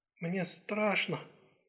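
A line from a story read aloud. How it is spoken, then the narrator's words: Barely audible. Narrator (Russian): чуть слышно произнесла Юнпин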